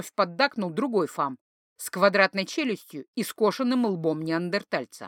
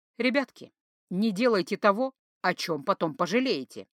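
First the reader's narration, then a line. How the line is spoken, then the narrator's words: Calm despite pounding fear. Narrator (Russian): сказала очень спокойно, хотя сердце колотилось так, что, казалось, вот-вот выпрыгнет из груди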